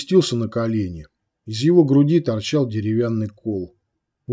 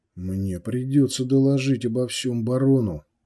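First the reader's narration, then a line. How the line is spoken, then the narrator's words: Quiet, bishop. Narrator (Russian): тихо сказал епископ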